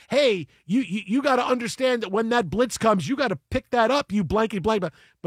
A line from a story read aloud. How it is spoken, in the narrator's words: yelling